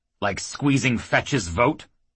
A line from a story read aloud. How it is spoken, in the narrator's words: Grocer growled